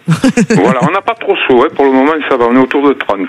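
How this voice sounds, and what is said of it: Mild southern French accent. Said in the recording (French): “Avec votre petit accent, vous êtes d'où d'ailleurs ? ... D'à côté d'Arles. ... Dans les Bouches du Rhône”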